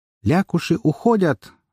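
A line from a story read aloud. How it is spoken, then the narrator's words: Joyful exclamation inside head. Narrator (Russian): радостно воскликнула Уна у меня в голове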